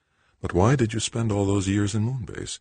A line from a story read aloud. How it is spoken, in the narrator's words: Melissa asked, sweetly